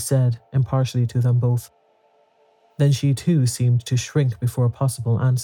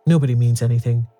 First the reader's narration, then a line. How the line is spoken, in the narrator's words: said Caroline firmly